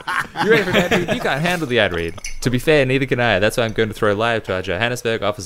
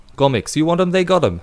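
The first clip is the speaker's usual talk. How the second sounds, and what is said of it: Put-on South African accent. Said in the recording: “do the rest in a South African accent ... we need the South African accent”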